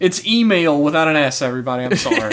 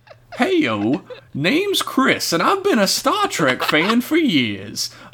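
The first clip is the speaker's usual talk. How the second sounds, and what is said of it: Put-on refined Southern gentleman accent. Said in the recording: “read this email in the dignified accent of a refined southern gentleman”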